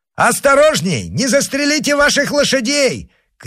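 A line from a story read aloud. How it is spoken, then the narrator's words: Shout then laughter. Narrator (Russian): крикнул Д'Артаньян и разразился смехом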